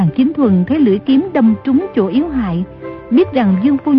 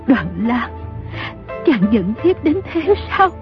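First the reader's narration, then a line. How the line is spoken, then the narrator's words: Trembling question. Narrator (Vietnamese): Dương phu nhân run rẩy hỏi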